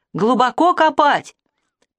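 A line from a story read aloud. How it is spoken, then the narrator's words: Shout. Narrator (Russian): крикнул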